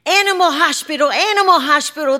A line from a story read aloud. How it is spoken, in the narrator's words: the children would shout